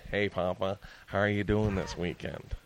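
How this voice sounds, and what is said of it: Deeper imitation of another person's voice. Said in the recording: “my impression of you is is deeper than say like an Elon Gould, Gold, Elon Gold ... I'll do both characters. So I'll be me, and this is Barry.”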